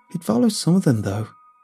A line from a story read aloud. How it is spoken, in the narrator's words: she said, unsteadily